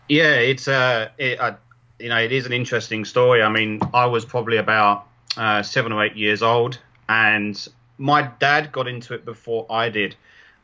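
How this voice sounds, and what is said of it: London English accent. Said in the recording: “you're originally from London ... I'm sure the listeners can tell by your accent that I'm incredibly jealous of”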